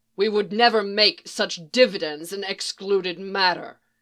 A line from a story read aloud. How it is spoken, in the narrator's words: Savage snarled